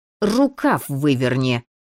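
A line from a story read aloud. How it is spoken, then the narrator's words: Through clenched teeth. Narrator (Russian): процедила она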